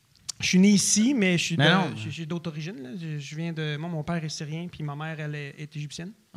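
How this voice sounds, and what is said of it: Strong Québécois French accent. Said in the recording (French): “j'ai vraiment un accent québécois prononcé ... pourquoi tu as un accent si prononcé québécois?”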